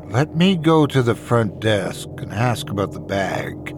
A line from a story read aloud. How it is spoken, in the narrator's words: I whispered in a measured tone